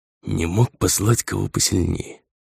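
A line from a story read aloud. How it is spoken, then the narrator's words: Quiet grumble. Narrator (Russian): тихо пробурчал Лсаэрос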